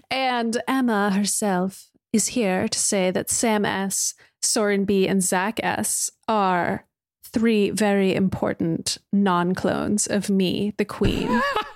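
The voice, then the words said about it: Bad put-on British accent. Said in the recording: “I get to do a bad British accent because it's not really a British accent.”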